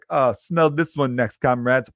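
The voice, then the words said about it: Put-on Russian accent. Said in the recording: “they got the cool accent ... I don't know if that was a good Russian accent, but I tried.”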